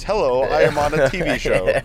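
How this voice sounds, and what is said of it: Put-on TV presenter voice. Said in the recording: “Why am I doing this voice?”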